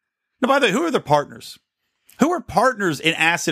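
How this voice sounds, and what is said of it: Usual voice. Nothing is said of it.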